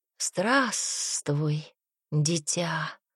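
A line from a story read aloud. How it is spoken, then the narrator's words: Creature's hoarse rasp. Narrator (Russian): прохрипело существо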